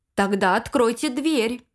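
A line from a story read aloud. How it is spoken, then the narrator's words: Menacing repetition. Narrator (Russian): Грозно повторил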